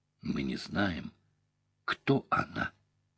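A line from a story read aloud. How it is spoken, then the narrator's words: Quiet old woman's answer. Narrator (Russian): тихо ответила старуха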